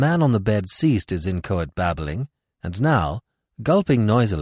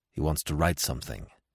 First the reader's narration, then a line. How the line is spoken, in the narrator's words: said Smith in a low voice